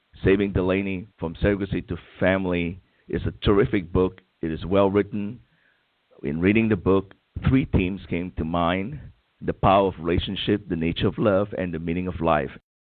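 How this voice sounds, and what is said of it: Coarse, hoarse voice from illness. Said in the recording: “I'm coming down with something here, so my voice is rather coarse”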